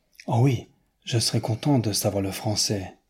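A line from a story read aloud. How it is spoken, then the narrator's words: Earnest, heartfelt tone. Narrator (French): dit Newman d'un ton pénétré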